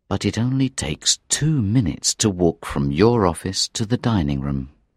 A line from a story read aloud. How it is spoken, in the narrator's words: the inspector said quietly